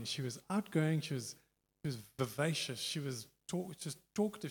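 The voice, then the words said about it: Accent that sounds white. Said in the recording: “I know my accent is really white.”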